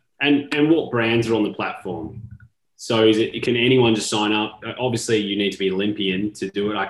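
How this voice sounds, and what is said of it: Non-American accent. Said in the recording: “you can tell by the accent, I don't think I'm going to be representing the US”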